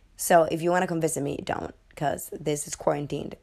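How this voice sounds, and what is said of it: Sick-sounding voice. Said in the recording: “as you can hear from my voice ... Everybody in my house is sick”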